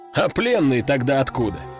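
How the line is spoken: Short laugh. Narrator (Russian): хохотнул тот

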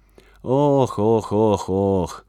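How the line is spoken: Sigh. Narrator (Russian): вздохнул он

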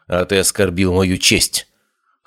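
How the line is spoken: Cold reply. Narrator (Russian): холодно ответила Хлоя

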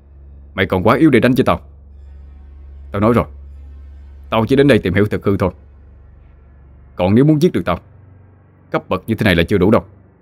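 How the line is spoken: Shout. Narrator (Vietnamese): Cậu quát

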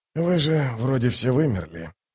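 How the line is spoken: Muttered. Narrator (Russian): пробормотал малозанец

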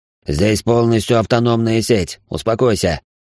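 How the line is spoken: Growling. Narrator (Russian): рыкнул на него Рабаданов

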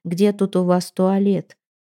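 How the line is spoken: Mumbled. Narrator (Russian): промямлил

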